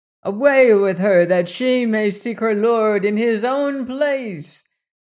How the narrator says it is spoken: cried

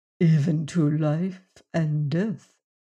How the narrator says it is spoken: answered gravely

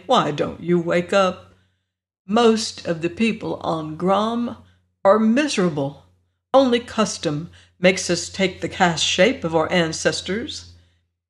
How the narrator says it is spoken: Jer said sadly

